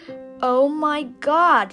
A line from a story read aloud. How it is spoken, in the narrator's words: she cried